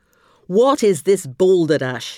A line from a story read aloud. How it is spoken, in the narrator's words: he roared